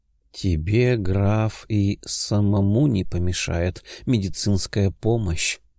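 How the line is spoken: Drawling. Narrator (Russian): протянула Сильвия

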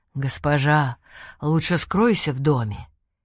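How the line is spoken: Soft deep male voice. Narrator (Russian): глубокий мужской голос мягко произнес

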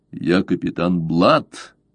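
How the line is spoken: Cold stern reply. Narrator (Russian): холодно прозвучал в ответ суровый голос флебусьера

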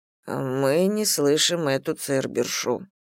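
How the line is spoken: Muttering into ear. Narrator (Russian): бормочет мне на ухо

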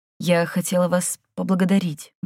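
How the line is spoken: Grumbled mutter. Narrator (Russian): буркнула Майми

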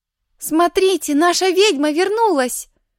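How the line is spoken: Joyful shout. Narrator (Russian): радостно закричала Фима

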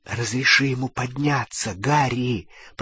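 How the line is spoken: Whisper. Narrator (Russian): прошептала Гермиона

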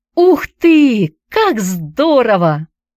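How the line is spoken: Exclamation. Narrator (Russian): воскликнула Хайди

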